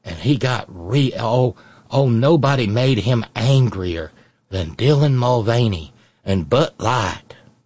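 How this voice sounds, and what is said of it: Put-on folksy rural Southern accent. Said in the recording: “I'm stuck in this cornpone accent.”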